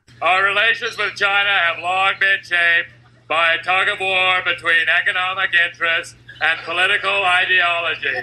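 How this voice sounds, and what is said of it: Shouting news reporter, Will Ferrell's Loud Talker. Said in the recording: “the Saturday Night Live character that Will Ferrell did when he was a news reporter, but he had the talking loud disease ... the Loud Talker ... Holy, your voice. ... You're shouting.”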